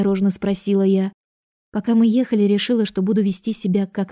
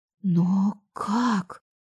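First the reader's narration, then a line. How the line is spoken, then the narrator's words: Surprised whisper. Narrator (Russian): прошептала я удивленно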